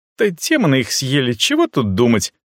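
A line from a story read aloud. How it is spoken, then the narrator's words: Snort. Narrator (Russian): фыркнула Ашу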